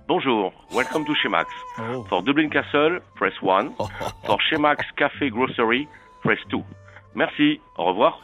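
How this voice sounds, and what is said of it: Pleasant foreign accent. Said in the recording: “Such a nice accent... It's beautiful.”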